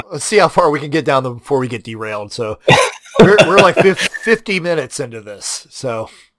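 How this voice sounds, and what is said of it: Nasal, congested voice. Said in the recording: “I sound nasal because in Texas, every year around this time, the cedar trees try to fucking murder you”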